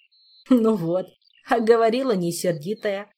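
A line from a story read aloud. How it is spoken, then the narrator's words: Chuckling. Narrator (Russian): хохотнул Толик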